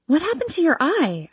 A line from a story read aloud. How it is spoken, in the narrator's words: exclaim, running up to him